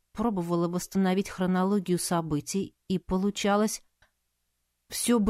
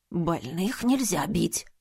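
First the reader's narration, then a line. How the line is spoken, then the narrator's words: Quick wheeze, feigned illness. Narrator (Russian): Быстро просипел мохнатый интриган, изображая резкое ухудшение состояния здоровья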